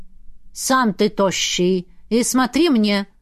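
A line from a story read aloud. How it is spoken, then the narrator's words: Stern. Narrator (Russian): строго произнесла она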